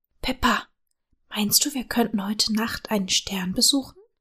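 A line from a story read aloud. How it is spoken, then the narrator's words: Whispered question. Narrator (German): fragte er flüsternd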